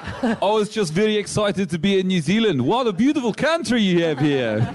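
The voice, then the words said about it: Bad put-on South African accent. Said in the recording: “he pretended to be South African ... It's not even a good accent. ... it was a really bad accent”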